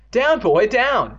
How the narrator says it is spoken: Evan cried

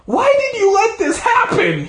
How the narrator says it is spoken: he screamed at her

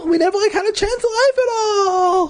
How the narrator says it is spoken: Louisa cried, correcting herself when she stumbled

